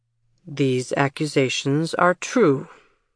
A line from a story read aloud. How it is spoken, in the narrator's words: Jameson repeated the obvious in his steady voice